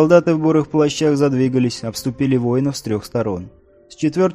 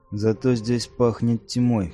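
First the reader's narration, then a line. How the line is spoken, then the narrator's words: Muttering under breath. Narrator (Russian): пробормотал себе под нос Биорк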